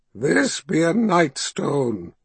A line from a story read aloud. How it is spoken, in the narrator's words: she said in a measured rasp